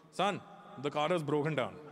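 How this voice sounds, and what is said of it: Imitated thick Indian accent. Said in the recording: “how thick my dad's accent was when he moved to Canada, but it never got thinner ... My dad had this ability to give everything an accent ... My dad would fuck up sounds”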